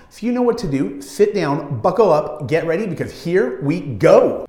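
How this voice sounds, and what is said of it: Energetic, pumped-up delivery. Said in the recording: “You can hear it in my voice, you can hear my energy, I'm pumped.”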